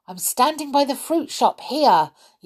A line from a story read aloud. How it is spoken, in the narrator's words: yelled back Peter